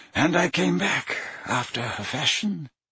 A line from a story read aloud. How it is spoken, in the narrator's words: mumbled Dumbledore